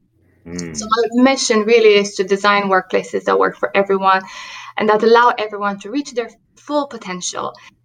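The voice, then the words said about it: Romanian accent in English. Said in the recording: “having grown up in Romania, you can hear that in my accent”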